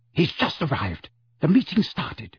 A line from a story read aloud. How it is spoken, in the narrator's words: whispered urgently